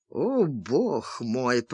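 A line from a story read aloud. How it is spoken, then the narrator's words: Exhausted groan. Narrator (Russian): простонал Чарли в изнеможении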